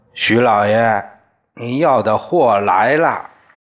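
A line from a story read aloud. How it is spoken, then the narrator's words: Calling out. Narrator (Chinese): 有钱人喊的却是我爹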